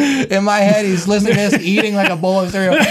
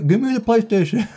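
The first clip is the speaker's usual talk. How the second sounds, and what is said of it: Imitates another person's voice while eating. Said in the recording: “my impression of Dennis eating”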